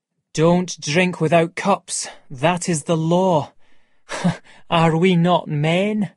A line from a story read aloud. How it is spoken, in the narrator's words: said Montgomery with a worried laugh